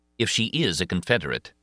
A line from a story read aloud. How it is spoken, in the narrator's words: he said